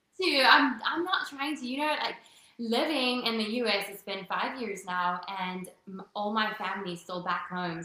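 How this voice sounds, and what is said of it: South African accent, partly Americanized. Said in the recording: “it's South Africa, and yes, my accent is all messed up ... don't lose the accent.”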